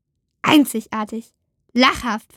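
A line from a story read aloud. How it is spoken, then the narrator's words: Hissing. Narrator (German): fauchte Eno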